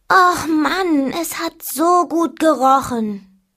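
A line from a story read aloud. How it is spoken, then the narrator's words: Disappointed groan. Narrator (German): stöhnte enttäuscht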